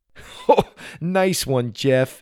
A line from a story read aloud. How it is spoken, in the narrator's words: he laughed